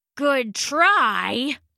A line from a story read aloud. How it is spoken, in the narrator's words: Hari grunted